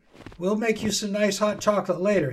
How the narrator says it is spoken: his dad said

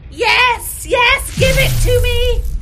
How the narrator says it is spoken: shouted the Ice Queen

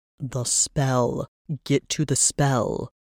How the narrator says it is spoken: Varys growled

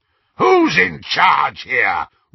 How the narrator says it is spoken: roared Greyback, covering his moment of inadequacy

